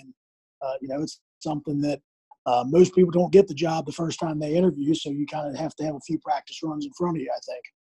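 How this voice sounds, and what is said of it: Hoarse, strained voice. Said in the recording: “I can hear, you're losing your voice a lot like me.”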